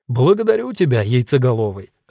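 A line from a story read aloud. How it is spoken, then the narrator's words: Reply with sudden giggle. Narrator (Russian): отозвался Мышелов и неожиданно хихикнул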